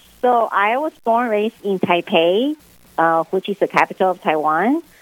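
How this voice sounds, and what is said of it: Noticeable foreign accent. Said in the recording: “We we heard a little bit of the accent”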